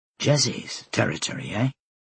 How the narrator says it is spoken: Flora swore under her breath

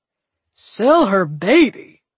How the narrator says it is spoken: Judge Stone boomed

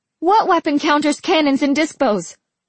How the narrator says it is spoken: someone yelled

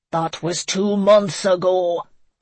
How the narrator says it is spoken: Connor roared

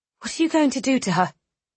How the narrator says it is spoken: She asked sharply

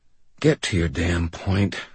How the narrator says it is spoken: I said quietly

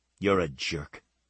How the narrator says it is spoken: said under her breath

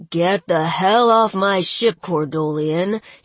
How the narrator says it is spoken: he snarled

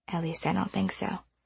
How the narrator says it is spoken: she muttered

